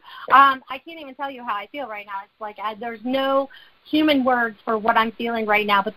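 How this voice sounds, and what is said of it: Excited, energetic speech. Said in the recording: “hear the excitement in my voice”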